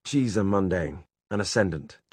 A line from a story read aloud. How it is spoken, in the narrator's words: Jem said quickly